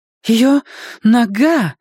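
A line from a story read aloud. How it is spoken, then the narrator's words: Exclaimed. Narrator (Russian): воскликнула она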